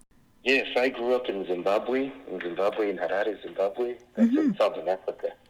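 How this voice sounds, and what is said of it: International accent, Southern African. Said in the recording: “you have an international accent”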